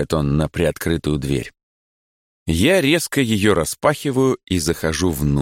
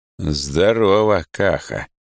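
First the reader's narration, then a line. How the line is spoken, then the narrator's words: Gloomy. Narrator (Russian): говорю я мрачно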